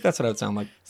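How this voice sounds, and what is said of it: Thick put-on Canadian accent. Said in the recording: “I have a thick Canadian accent ... Spot on. Every Canadian I've spoken to.”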